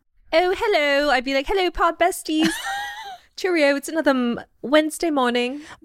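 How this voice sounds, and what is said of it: Put-on British accent. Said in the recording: “I would have to call you out if you started talking in a British accent. ... Imagine if I just slowly started talking like this.”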